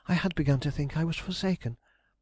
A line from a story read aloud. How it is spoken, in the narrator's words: she cried